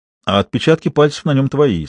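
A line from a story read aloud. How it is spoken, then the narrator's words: Plain. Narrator (Russian): сказал Сидоров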